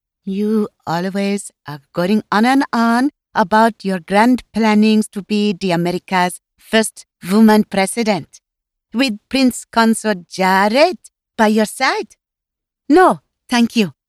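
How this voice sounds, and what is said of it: Exaggerated Slovenian accent, Natasha-like. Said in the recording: “she sounded like Natasha from the Rocky and Bullwinkle cartoon ... She thought her accent differentiated her ... she really played up the whole Slovenian immigrant thing”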